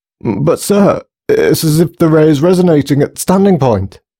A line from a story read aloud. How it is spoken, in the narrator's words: stammered Grayson, desperately punching away at a keyboard